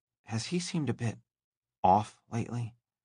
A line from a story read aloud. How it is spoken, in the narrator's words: Valerie whispered